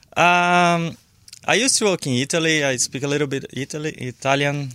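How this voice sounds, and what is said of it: South American accent in English. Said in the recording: “you're from South America ... not in your native language ... Sorry about my accent.”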